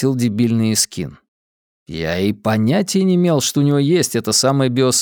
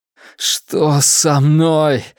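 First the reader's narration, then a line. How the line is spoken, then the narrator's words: Strained, pained voice. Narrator (Russian): выдавил я между приступами боли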